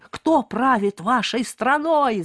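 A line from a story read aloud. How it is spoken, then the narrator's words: Shout. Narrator (Russian): закричал Барри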